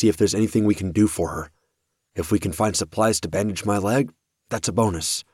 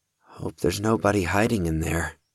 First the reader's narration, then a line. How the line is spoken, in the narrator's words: Oliver muttered